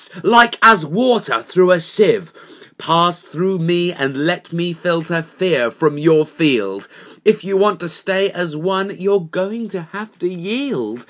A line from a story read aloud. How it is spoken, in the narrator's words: boomed the box